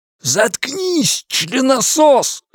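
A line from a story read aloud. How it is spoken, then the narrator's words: Shouting. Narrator (Russian): закричал он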